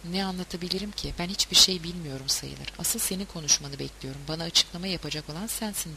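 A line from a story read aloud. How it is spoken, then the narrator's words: Murmured. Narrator (Turkish): diye mırıldandı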